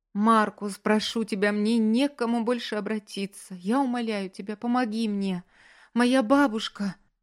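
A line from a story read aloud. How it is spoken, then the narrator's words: Sobbing girl. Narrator (Russian): Девушка рыдала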